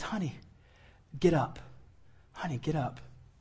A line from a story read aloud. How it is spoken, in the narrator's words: gently lifts her right up through it and says